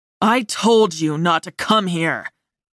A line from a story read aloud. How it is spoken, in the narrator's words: Orion snarled